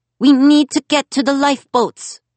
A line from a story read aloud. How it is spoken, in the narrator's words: Simon shouted over the mass hysteria